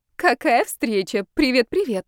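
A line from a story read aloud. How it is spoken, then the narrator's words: Joyful greeting. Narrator (Russian): ответила радостно Маргарита Сергеевна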